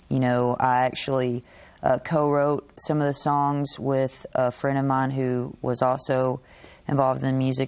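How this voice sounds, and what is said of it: Western Kentucky accent. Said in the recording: “That's where that accent's from. I was trying to pinpoint that. ... Western Kentucky”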